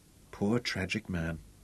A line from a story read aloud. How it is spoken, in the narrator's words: Robin whispered